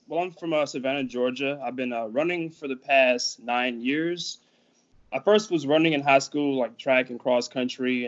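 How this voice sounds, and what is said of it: Southern Georgia accent. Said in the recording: “You have that Georgia accent. ... You have the South.”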